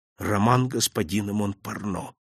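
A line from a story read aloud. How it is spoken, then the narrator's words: Whisper. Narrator (Russian): прошептал я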